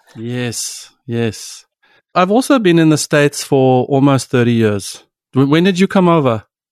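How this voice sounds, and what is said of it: South African accent. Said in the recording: “your accent is still very South African”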